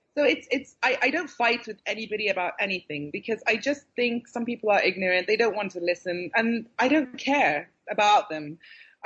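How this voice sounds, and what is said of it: British accent. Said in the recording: “your accent is so British”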